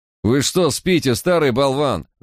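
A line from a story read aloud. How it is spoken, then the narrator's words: Yelling. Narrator (Russian): заорал Барк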